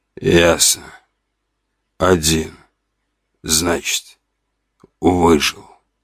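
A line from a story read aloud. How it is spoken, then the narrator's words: Hoarse weak man. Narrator (Russian): хриплым голосом сказал слабый худощавый мужчина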